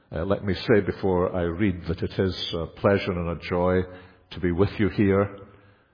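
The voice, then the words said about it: Non-American accent. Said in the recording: “a non-American accent”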